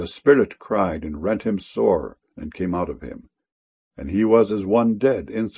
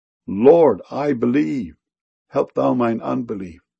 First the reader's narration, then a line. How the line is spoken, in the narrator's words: the father of the child cried out and said with tears